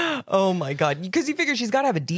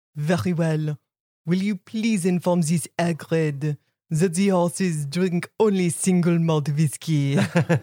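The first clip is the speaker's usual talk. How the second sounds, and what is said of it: Deep voice, put-on French accent. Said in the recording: “deep voice ... kind of a deep voice ... this wonderful French accent”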